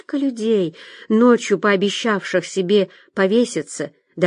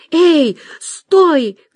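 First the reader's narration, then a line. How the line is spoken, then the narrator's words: Shouted. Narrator (Russian): крикнула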